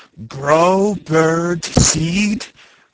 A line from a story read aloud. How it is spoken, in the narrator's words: he groaned in disgust